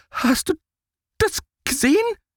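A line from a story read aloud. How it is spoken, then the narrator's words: Stammered. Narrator (German): stottert Max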